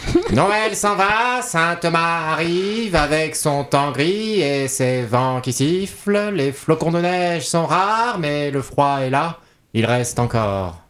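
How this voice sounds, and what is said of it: Impression of Frédéric Mitterrand. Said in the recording (French): “Est-ce que je peux le faire avec la voix de Frédéric Mitterrand?”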